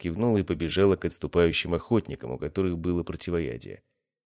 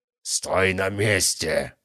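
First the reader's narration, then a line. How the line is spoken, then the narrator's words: Growling. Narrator (Russian): рычал он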